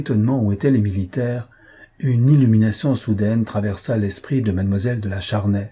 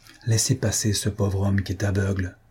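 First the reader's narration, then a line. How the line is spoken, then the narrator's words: Low voice. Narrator (French): dit-il à voix basse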